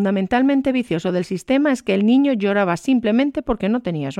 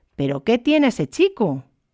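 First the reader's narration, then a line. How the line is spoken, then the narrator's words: Exclaiming. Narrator (Spanish): exclamó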